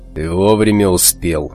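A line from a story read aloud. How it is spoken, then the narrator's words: Calm. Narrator (Russian): спокойно сказал рвач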